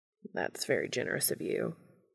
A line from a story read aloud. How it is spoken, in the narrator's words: Castiel says dryly